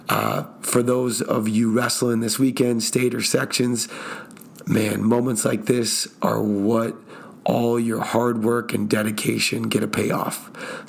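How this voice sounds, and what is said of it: Raspy, strained voice. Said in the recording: “I need to rest my voice, as you can hear right now. It sounds a little bit more raspy than normal”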